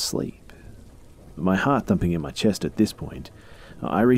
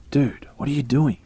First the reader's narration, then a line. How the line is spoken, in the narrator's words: he asked